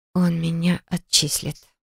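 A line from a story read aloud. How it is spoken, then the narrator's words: Whisper. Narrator (Russian): прошептала я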